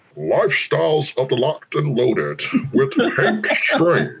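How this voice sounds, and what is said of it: Imitates another person's voice. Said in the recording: “I can do Sam Andrews voice... It's close. Pretty good.”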